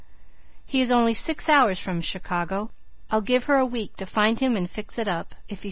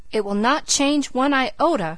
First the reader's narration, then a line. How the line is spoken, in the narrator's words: cried Philip